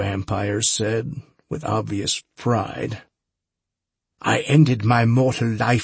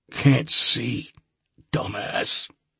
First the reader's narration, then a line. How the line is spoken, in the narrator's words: I croaked